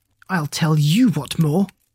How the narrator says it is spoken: Troy snapped

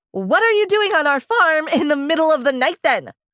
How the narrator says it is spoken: I screamed

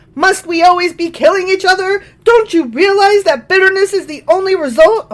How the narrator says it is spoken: Abner shouted down to Joab

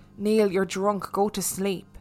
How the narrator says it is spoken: she just mumbled

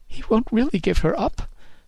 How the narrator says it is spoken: she sobbed

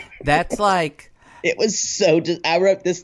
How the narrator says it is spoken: the creepiest nervous laughter I've ever heard

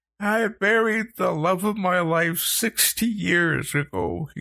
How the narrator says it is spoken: he choked

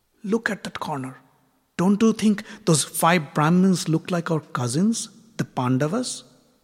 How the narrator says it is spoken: whispered into his ears

